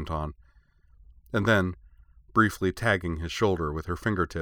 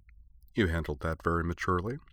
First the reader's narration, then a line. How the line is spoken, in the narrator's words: Kate murmured dryly